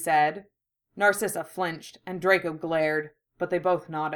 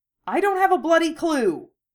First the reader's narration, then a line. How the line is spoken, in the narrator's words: Harry snapped